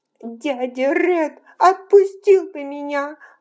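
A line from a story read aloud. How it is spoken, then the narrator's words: Sobbing. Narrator (Russian): рыдала Элла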